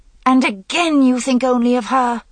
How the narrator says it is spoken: Guinevere cried

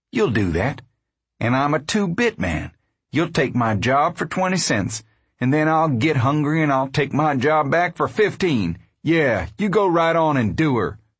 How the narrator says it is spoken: he said bitterly

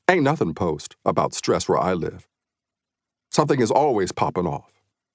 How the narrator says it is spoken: One young woman in the group calmly ... replied

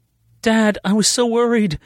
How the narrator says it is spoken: she choked out

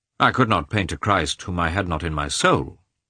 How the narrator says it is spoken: Mikhailov rejoined gloomily

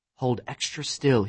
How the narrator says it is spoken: he whispered

